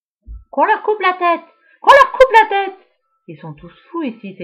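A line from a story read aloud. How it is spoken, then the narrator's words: Exclaiming. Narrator (French): s'exclame Guillaume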